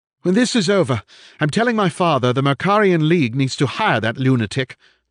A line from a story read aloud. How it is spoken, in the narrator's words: Thornbury gasped